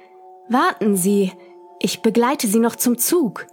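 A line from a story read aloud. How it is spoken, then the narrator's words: Calling after someone. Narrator (German): der Mann rief mir hinterher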